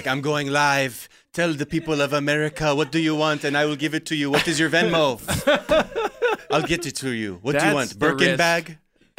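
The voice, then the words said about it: Lindsay Lohan's put-on accent. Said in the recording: “Lindsay Lohan ... why are you talking with that accent?”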